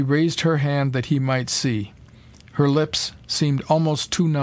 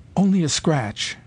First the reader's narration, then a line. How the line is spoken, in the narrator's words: she whispered